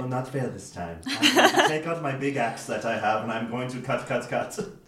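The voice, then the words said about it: Character voice. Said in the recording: “doing a voice”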